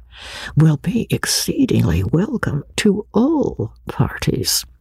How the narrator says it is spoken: lowering his voice to an important whisper

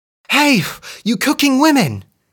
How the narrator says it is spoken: she cried

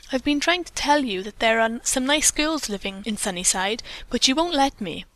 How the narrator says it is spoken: the boy said in a consolatory tone

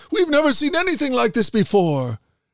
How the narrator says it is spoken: They were all amazed and praised God, exclaiming

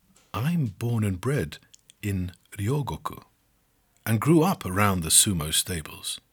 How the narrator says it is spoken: In a low voice, she says

